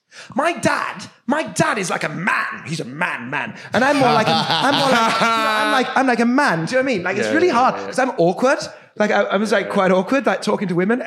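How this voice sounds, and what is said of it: Impression of English stand-up comedian. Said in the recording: “This is my impression of an English stand-up comedian at the Melbourne Comedy Festival”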